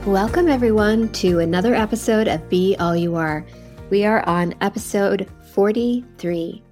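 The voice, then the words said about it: Voice sounds like a cold. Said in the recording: “hear in my voice that I have a bit of a cold”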